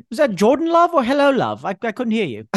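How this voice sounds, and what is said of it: Put-on English accent. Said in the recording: “I want this accent to appear in every episode ... the English accent”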